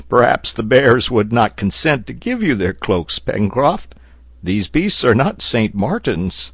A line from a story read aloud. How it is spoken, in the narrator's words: replied Neb, laughing